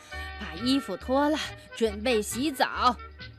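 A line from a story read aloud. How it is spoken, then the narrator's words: Breathless, panting. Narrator (Chinese): 熊爸爸终于爬到楼上，他气喘吁吁地说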